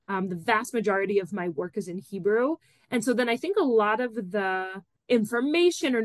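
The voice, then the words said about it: American accent. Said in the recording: “I'm Israeli American ... I was raised there. I think it's also very obvious with my accent.”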